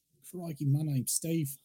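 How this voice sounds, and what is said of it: Put-on Australian accent. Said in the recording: “your voice with an Australian accent ... perfect ... It's perfect.”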